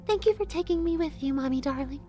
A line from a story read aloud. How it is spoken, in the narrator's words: she said sweetly